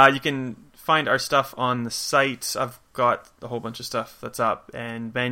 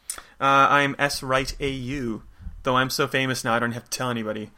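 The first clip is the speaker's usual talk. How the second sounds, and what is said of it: Sarcastic tone. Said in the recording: “That was sarcasm.”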